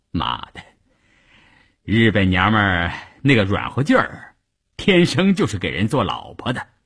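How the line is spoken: Laughing. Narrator (Chinese): 关山林笑着对一旁的三五九旅副旅长谭之林说

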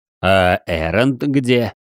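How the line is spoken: Rapid giggling. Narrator (Russian): Мелко и часто хихикая, маг

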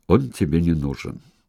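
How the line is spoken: Grim tone. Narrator (Russian): Она сказала мрачно, почти тем же тоном, что и Евангел

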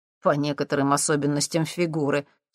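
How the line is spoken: Embarrassed chuckle. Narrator (Russian): смущенно хмыкнул Максим

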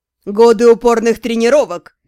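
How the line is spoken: Snide reply. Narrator (Russian): ехидно отозвался блондин

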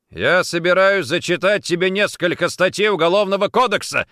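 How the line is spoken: Stung, angry bark. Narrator (Russian): рявкнул Никитин, явно задетый самообладанием женщины

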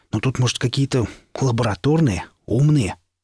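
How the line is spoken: Growl from behind. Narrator (Russian): Сзади донеслось рычание

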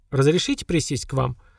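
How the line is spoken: Calm, friendly question. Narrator (Russian): Спокойно, доброжелательно спросила та

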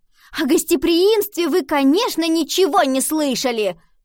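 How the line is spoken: Shouting. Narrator (Russian): крикнула она

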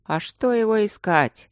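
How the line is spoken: Gloomy old man. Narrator (Russian): мрачно сказал старый безопасник

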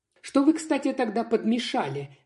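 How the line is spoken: Sharp question. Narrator (Russian): резко спросила я

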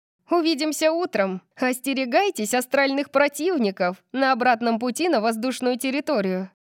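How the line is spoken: Shouted while laughing. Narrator (Russian): крикнула Тори, смеясь

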